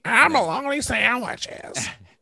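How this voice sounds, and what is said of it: Shrill imitation of another person's voice. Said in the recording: “That's my Roseanne impression. ... That shrill voice? ... the voice that you did was a shrill voice.”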